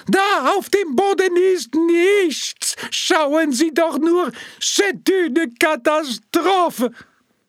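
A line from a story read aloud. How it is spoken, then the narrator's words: Mock-desperate cracking shriek. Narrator (German): Mit imitierter Verzweiflung und sich überschlagender Stimme kreischte der Künstler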